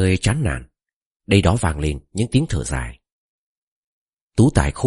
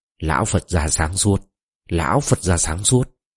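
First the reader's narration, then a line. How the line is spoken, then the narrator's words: Old man muttering. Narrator (Vietnamese): Một ông râu đốm bạc lẩm bẩm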